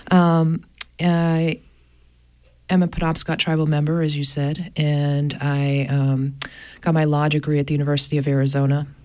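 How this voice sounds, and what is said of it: Scratchy voice from a cold. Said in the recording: “I have a bit of a cold this morning, so I'm going to be a little scratchy.”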